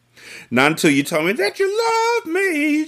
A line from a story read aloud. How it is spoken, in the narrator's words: she decided playfully